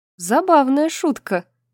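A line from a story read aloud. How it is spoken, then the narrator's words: Curt, after laughing. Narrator (Russian): бросила она Кормаку, перестав смеяться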